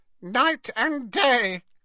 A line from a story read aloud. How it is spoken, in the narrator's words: croaked Creature